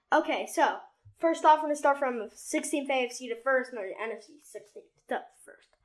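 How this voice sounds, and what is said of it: Speaking very fast. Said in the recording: “you were really saying it really fast”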